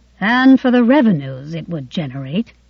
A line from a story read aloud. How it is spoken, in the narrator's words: Frankel added in a gloomy tone